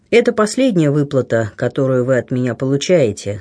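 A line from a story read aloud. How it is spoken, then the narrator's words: Plain. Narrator (Russian): сказал он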